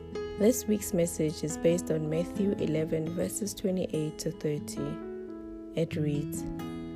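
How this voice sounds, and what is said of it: Scratchy, hoarse voice. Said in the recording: “my voice is a little scratchy today because of the flu”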